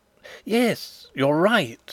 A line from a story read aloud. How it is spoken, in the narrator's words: exclaimed Fritz, his face brightening